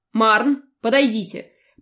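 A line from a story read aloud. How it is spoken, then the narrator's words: Stern demand. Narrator (Russian): потребовала строго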